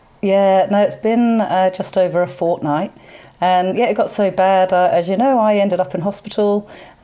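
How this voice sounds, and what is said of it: Croaky, hoarse voice. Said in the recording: “you can probably hear my voice is still a bit croaky”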